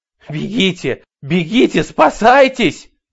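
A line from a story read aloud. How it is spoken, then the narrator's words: Shouting. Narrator (Russian): кричала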